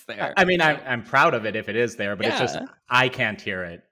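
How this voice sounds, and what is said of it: Chicago accent. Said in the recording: “I have like the strongest Chicago accent they've ever heard ... you got a pretty good one ... I heard it a little bit in there”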